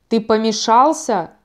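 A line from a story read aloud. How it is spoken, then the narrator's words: Growl. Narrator (Russian): зарычал Рус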